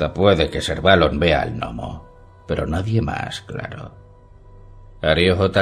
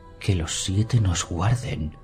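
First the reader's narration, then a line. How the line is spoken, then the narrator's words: Whispered. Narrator (Spanish): susurró Tiene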